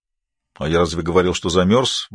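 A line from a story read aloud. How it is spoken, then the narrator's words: Grumbled. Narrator (Russian): буркнул Норта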